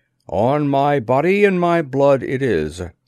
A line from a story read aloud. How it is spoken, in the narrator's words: returned the Khatkin grimly